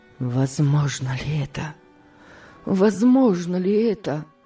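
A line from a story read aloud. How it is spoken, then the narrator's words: Repeated whisper. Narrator (Russian): шептал он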